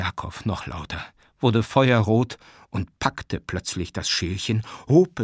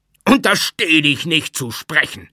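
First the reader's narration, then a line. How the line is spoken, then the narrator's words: Screaming, distorted voice. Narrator (German): schrie er mit völlig entstellter Stimme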